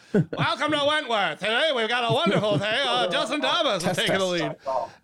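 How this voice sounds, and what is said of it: Loud, shouting American radio announcer. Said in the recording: “just screaming into his mic ... He also sounds American.”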